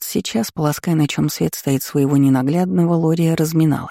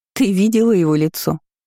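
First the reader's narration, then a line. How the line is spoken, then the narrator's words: Short laugh. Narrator (Russian): хохотнула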